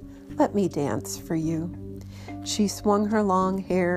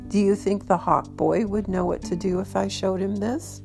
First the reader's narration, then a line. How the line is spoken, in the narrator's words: Ra laughed